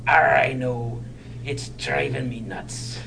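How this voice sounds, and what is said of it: Good pirate character voice. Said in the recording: “He does a good pirate voice.”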